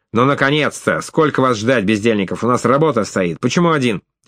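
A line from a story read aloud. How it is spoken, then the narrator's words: Loud bark, doorman. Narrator (Russian): швейцар, дежуривший у дверей и гаркнувший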